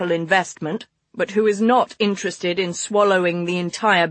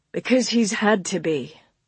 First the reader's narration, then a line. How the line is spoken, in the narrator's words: Harland replied wearily